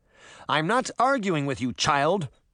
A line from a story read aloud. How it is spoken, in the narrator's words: Mustard Seed said angrily